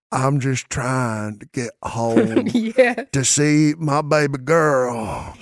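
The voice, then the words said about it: Exaggerated drunken southern country drawl. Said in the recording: “the worst country accent ... you've ever heard ... terrible accent ... like a drunken southern drawl”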